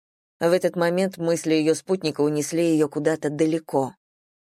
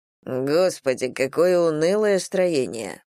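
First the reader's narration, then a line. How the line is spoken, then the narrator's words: Grumbling husband. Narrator (Russian): проворчал ее муж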